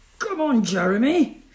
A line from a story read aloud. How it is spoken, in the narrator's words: shouted Stan